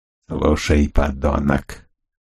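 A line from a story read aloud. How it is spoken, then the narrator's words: Hoarse wheeze. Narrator (Russian): прохрипел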